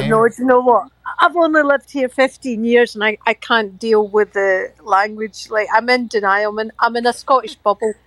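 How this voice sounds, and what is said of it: Scottish accent. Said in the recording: “I love your dialect.”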